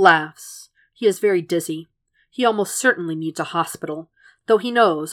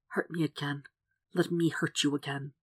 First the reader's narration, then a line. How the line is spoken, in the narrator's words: Compelled by this thought, Will whispers